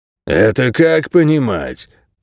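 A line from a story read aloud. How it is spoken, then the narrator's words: Distant old dog grumbling. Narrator (Russian): пробурчал седовласый пес, сидящий в отдалении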